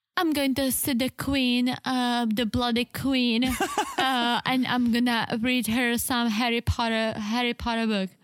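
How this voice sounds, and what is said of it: Put-on British accent. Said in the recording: “you have a very nice British accent ... Do your bloody British accent.”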